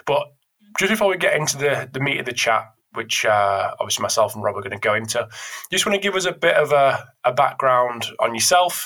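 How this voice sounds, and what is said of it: Voice affected by a cold. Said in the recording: “I've got a little bit of a cold ... bear with me if I'm coughing and spluttering”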